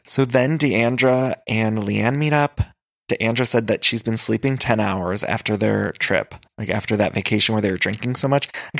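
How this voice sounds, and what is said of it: Hoarse voice with vocal fry. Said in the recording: “my voice is a little hoarse today ... It's been hoarse ... I have a little extra vocal fry”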